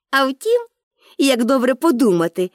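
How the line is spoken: Cheerful. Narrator (Ukrainian): додала вже весело

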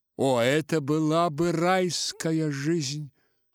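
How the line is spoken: Sighing. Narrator (Russian): сказал Чичиков, вздохнувший

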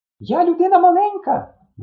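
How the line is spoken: Shrieking. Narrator (Ukrainian): верещала

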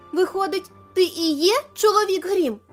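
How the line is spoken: Exclamation. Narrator (Ukrainian): вигукнула вона

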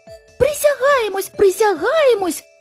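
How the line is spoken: Squeaky mice exclaiming. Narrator (Ukrainian): вигукнули придворні миші писклявими голосами

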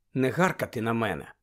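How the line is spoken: Weary. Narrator (Ukrainian): втомлено проказала Герміона

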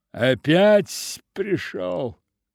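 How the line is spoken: Mocking angry shout in German. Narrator (Russian): Насмешливо и злобно крикнула по-немецки

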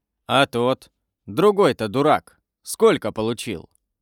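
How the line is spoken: Plain. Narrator (Russian): спросил содержатель кабачка

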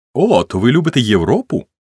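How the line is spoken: Sudden loud exclamation. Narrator (Ukrainian): несподівано голосно вигукнула Кетрін

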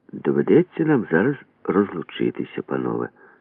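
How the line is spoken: Plain. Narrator (Ukrainian): сказав Максим Валер'янович

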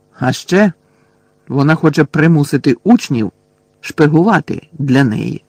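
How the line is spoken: Angry grumble. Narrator (Ukrainian): сердито буркнув Рон

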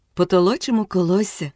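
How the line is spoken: Gentle and happy. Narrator (Ukrainian): сказала вже цілком лагідно і щасливо

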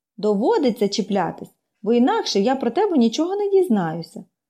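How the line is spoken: Calm explanation. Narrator (Ukrainian): спокійно пояснила Поліанна

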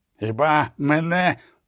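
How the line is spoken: Groan. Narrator (Ukrainian): простогнав

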